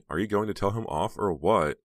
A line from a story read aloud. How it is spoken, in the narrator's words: Heather sighed